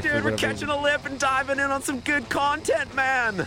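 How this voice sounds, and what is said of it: Laid-back surfer dude voice. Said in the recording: “Who was that surfer voice?”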